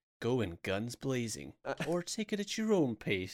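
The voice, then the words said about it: Serious movie-trailer narrator voice. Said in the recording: “they always have a really serious voice.”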